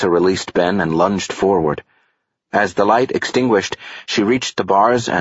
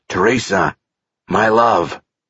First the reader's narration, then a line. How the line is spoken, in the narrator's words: The man said in a raspy voice